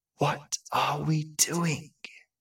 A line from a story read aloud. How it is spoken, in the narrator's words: she whispered to the empty, darkened air